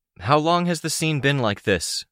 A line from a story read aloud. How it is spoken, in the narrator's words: asked, raising my voice to be heard